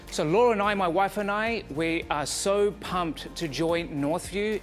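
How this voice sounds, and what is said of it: Quebec French accent. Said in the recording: “My accent is from Quebec.”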